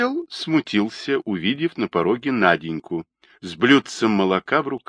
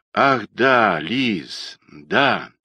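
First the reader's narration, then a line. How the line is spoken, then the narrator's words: Thoughtful drawl. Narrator (Russian): задумчиво протянул Родионов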